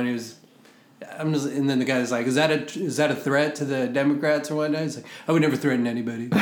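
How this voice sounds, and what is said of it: Usual voice. Nothing is said of it.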